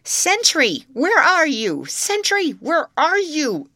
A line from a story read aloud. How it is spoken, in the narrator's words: it shrieked